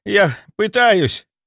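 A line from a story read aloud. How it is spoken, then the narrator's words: Breathless gasp. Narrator (Russian): выдохнул он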